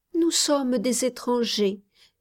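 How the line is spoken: Timid child. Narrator (French): répondit timidement l'enfant

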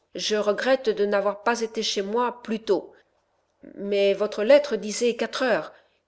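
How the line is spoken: Stammering man. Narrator (French): balbutia le philosophe

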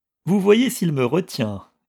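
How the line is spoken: Sneering. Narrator (French): ricana Chouchou

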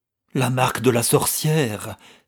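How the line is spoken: Startled exclamation. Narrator (French): s'écria avec un mouvement de recul

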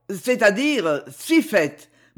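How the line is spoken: Stammering. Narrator (French): balbutia Cogolin

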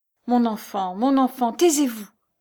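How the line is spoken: Pleading stammer. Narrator (French): bégaya en tendant ses mains suppliantes

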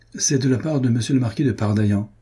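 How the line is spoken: Plain. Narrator (French): dit-il

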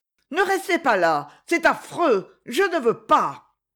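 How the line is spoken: Shout. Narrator (French): cria-t-elle

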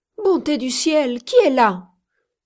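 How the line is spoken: Woman's startled exclamation. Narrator (French): s'écria une femme

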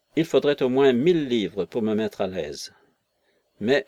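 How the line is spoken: Curt cutting tone. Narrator (French): ajouta-t-il d'un ton tranchant

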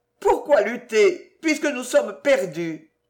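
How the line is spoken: Admirable, stirring exclamation. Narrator (French): l'admirable accent dont elle s'écria

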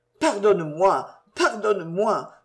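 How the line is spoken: Stammered. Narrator (French): balbutia-t-il

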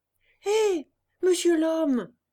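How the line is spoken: Calling out loudly. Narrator (French): cria alors Pinocchio au conducteur de la charrette

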